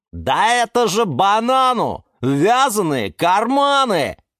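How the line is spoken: Loud yell. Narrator (Russian): заорал банан Степан

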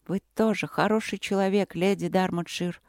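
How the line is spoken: Quiet. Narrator (Russian): произнесла она тихо

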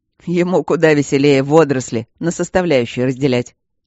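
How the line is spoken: Restless chuckle. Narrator (Russian): хохотнул неугомонный Мартин

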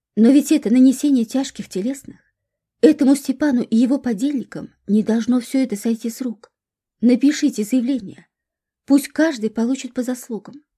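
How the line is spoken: Exclaiming. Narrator (Russian): воскликнула Регина

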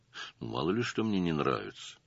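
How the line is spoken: Grumbled. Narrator (Russian): буркнул Стасов

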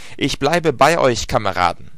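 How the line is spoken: Loud, determined shout. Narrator (German): rief ich laut mit Entschlossenheit

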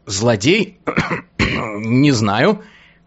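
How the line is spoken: Hoarse reply after cough. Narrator (Russian): кашлянув хрипло ответил

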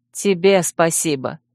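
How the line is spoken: Wry snort. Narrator (Russian): хмыкнула Джоу

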